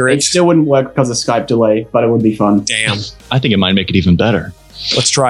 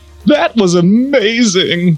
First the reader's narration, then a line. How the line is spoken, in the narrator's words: Ronald sobbed honestly